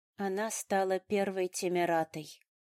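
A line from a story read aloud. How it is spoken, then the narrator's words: Flat, colorless voice. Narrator (Russian): бесцветным голосом обронила я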